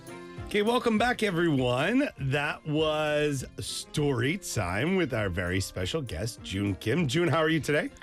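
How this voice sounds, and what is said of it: Nasal, congested voice. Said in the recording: “My nose sounds a bit, the word is nasally... my voice sounds different”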